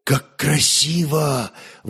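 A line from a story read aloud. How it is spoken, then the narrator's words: Rapturous whisper. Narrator (Russian): восторженно шептал Святослав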